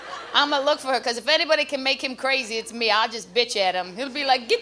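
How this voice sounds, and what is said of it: Usual voice. Nothing is said of it.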